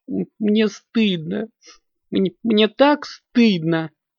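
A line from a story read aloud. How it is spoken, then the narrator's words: Small creature sobbing. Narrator (Russian): всхлипывала неведомая зверушка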